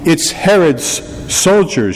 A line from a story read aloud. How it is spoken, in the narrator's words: she said